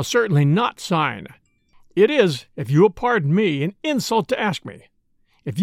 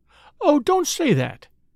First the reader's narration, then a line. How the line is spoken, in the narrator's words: pleaded the lady